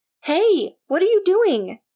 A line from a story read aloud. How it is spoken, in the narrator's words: Nyx yelled